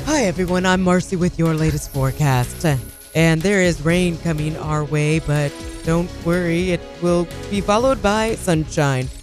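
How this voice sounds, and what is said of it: Exaggerated female newscaster voice. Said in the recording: “do the weird voice, though ... The voice that we don't like ... the girls who do the voice ... do a newscaster voice”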